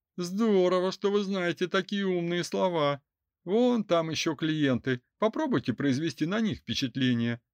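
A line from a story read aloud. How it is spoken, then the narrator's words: Curt rebuff. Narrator (Russian): осадила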